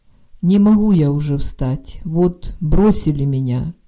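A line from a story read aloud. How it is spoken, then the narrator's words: Plain. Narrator (Ukrainian): відповів чоловік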